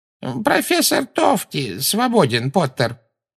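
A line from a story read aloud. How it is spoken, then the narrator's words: Creaky voice. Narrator (Russian): проскрипел Флитвик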